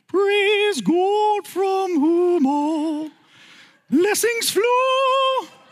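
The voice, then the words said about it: Very high sung falsetto. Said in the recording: “sing it in my most high falsetto voice that I can”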